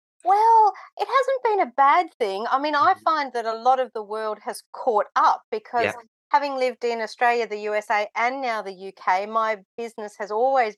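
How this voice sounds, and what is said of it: Australian accent. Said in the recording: “I can detect an Australian accent ... most certainly that is an Australian accent”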